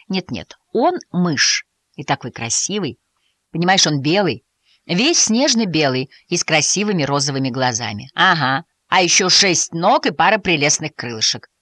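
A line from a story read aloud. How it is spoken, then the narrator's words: Rabbit, snorting smirk. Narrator (Russian): хмыкнул кролик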